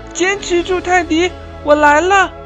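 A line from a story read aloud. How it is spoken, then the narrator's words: Loud shout. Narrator (Chinese): 鸭宝贝冲泰迪大声喊道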